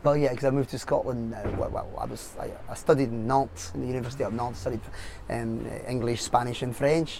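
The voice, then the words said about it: English with slight French accent. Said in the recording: “we're detecting something of an accent there. Obviously, there's a little bit of a French accent in there, but there's also something else.”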